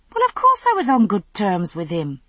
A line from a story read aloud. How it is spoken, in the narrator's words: I said indignantly